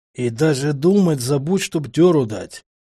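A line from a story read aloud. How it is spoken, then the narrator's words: Hissed into ear. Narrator (Russian): прошипел мне на ухо капрал Бролик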